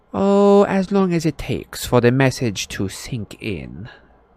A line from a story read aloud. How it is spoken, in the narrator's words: said Umbridge sweetly